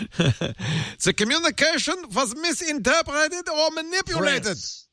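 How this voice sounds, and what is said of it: Put-on German accent. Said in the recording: “You can take accent lessons from ... Let's do a world tour with ... Okay, real quick. Germany.”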